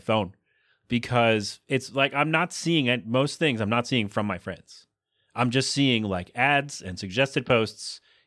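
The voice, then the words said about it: Choked-up sounding voice, coughing. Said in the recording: “I'm not crying, by the way. I got a cough. ... I know it sounds like I'm getting choked up.”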